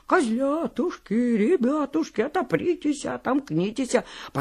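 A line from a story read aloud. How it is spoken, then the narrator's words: Wolf's thin singing voice. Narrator (Russian): волк и запел тоненьким голоском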